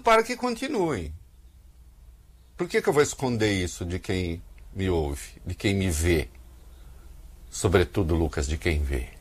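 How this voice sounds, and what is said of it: Brazilian caipira accent. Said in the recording (Portuguese): “Reconheci pelo sotaque caipira.”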